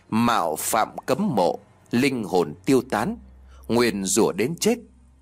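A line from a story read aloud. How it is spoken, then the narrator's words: Quiet reading. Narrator (Vietnamese): Mẫn khẽ đọc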